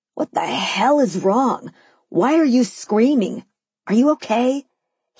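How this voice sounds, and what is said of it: Yelling. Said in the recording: “he yelled”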